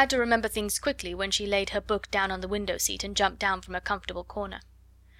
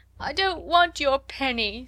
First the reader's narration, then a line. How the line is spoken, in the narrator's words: sobbed Lottie